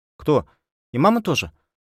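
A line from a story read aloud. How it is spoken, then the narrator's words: Frightened question. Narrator (Russian): спросила Зуля испуганно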